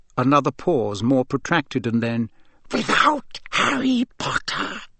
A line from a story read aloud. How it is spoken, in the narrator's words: breathed the second voice softly